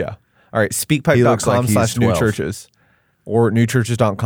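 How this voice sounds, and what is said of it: Usual voice. Nothing is said of it.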